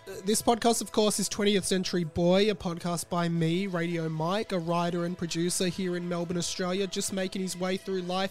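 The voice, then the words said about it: Sick, low-energy voice. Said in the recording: “you can hear it, the low energy in my voice ... I'm so sick at the moment ... I have had the worst cold for the last week ... It hurts a lot to talk. You can probably hear it in my voice.”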